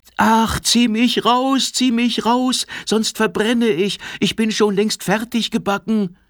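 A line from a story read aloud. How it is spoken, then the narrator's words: Bread calling out. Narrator (German): Brot war, das da rief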